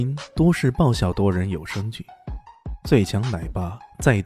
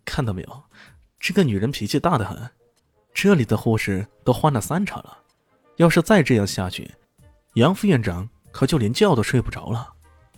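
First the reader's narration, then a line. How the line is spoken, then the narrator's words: Wry, bitter smile. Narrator (Chinese): 刘伯言苦笑着说道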